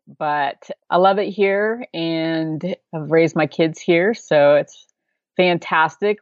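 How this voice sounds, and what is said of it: Oklahoma regional American accent. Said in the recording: “I grew up in Oklahoma, and I've been here my whole life, so probably evident through my accent.”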